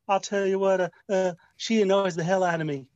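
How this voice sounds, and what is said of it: Imitates another person's voice. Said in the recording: “do a Bill Clinton impression. ... See, I can't do impressions.”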